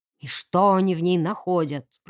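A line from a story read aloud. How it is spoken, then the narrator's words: Grumbling. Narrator (Russian): проворчал он, качая головой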